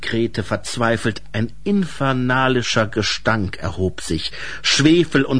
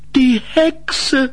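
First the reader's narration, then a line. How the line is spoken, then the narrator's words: Calling out in sudden realization. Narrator (German): rief, der plötzlich alles begriff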